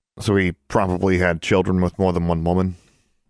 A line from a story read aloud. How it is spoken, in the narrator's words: Alexandra snorted